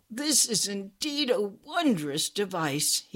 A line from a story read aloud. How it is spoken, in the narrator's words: gasped